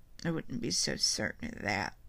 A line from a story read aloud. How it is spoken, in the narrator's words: I mumbled